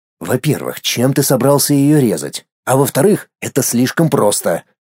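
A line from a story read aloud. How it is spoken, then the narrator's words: Anticipatory, through teeth. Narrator (Russian): С предвкушением процедил я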